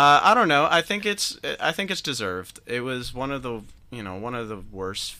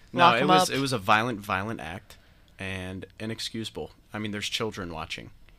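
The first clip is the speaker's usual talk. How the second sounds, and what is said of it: Sarcastic, mock-serious delivery. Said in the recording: “are you still being sarcastic? ... I'm being sarcastic.”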